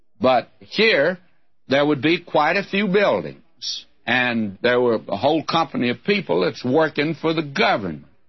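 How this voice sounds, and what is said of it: Texas accent. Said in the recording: “you folk with a Texas accent”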